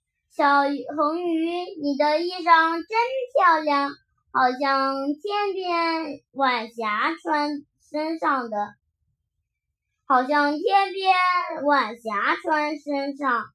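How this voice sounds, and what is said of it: Crisp, clear character voice. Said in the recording (Chinese): “清脆的声音说”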